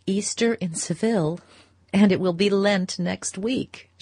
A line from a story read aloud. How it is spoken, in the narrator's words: she laughed